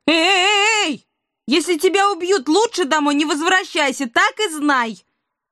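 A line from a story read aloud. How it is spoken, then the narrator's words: Desperate shout. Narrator (Russian): отчаянно крикнула вслед Илона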